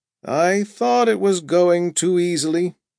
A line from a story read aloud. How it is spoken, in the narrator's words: Jastrow said from the back seat, in a low, sad voice